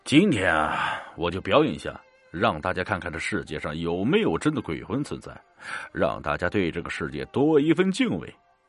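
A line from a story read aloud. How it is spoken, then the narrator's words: Smiling. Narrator (Chinese): 大伯笑了笑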